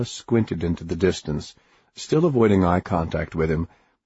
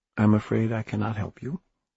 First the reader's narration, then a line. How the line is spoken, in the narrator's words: she said quietly